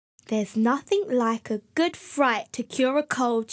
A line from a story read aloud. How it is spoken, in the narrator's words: she said cheerfully